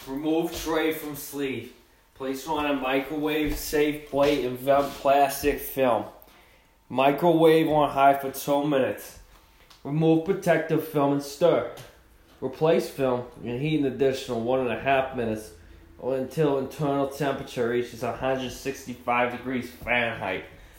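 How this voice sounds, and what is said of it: Reading in a put-on accent. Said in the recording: “in reading that with that accent”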